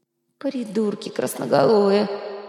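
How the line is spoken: Groaning to himself. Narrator (Russian): простонал про себя Вилар

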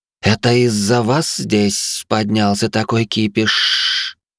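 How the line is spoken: Soft hiss. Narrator (Russian): мягко прошипела женщина

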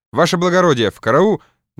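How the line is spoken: Broken-off start. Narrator (Russian): начал было он

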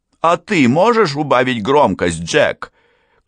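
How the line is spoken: Shouting. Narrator (Russian): крикнула я

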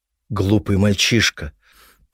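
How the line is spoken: Emotional muttering. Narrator (Russian): пробормотала экономка, отбросив всю прежнюю бесстрастность

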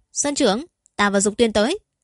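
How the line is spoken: Sudden loud call. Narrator (Vietnamese): Như Phong đột nhiên cao giọng gọi lớn

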